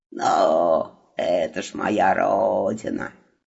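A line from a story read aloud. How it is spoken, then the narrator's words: Condescending snort, carpet. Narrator (Russian): снисходительно хмыкнул ковер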